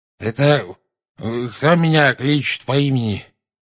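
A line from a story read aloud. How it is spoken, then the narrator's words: Sleepy mumble. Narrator (Russian): сонно пробормотал наземникус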